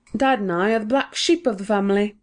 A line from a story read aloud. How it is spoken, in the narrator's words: he said with a laugh